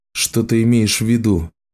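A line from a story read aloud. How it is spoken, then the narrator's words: Deep sigh, thoughtful. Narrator (Russian): Саманта глубоко вздохнула, собираясь с мыслями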